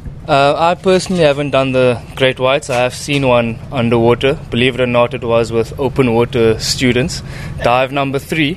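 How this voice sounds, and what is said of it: Slight South African accent. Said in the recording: “you have a little bit of an accent ... South Africa”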